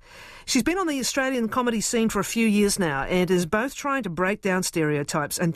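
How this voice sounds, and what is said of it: New Zealand accent. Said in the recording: “Can you understand my accent? ... Kiwi.”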